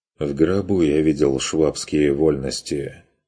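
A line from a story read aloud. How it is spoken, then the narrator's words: Curt, dry retort. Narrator (Russian): отрезал Курт сухо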